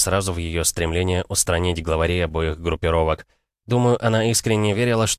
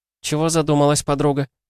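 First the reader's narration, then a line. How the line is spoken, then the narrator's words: Cheerful question. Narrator (Russian): весело спросила Кристина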